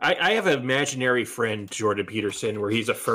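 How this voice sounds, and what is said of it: Usual voice. Nothing is said of it.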